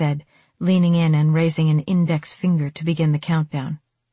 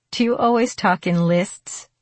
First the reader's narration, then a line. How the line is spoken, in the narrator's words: I asked, giggling